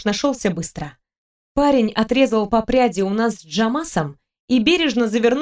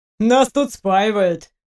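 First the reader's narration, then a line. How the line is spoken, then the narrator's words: Amused grunt. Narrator (Russian): хмыкнул Джамас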